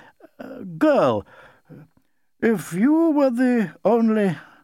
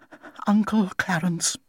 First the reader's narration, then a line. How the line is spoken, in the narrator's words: she said in a low, trembling voice